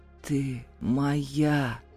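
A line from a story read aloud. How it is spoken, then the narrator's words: Barely audible rasp. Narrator (Russian): прохрипел едва слышно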